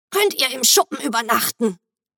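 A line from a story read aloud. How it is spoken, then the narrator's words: Croaky smoker's voice. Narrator (German): begann mit ihrer krächzenden Raucherstimme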